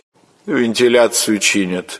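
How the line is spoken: Indifferent reply. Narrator (Russian): равнодушным голосом отвечала она

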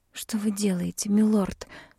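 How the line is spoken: Whisper. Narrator (Russian): прошептала

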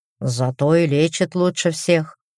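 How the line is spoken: Wry grunt. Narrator (Russian): хмыкнул в итоге один из носильщиков

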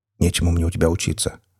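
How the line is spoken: Grumbled. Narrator (Russian): буркнул я

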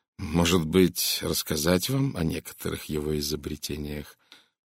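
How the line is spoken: Even, calm speech. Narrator (Russian): он заговорил ровно, спокойно

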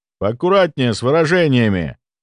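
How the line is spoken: Menacing. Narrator (Russian): грозно произнес младший брат

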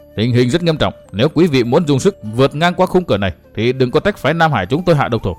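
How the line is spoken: Stern. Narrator (Vietnamese): Vương Quán Trung nghiêm giọng

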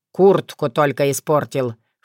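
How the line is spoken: Snort. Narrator (Russian): фыркнул он

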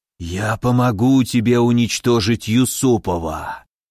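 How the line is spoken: Hiss. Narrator (Russian): прошипел высший проклинатель

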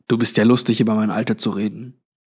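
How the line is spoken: Mocking murmur, young man. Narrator (German): murmelte der junge Mann spöttisch

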